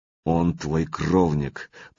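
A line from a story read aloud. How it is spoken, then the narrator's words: Said through teeth. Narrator (Russian): процедил посмертный сын Канунга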